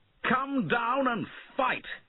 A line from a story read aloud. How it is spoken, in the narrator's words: he shouted